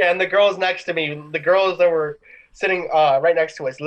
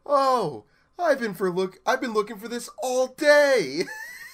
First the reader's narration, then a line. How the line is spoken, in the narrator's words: just exclaims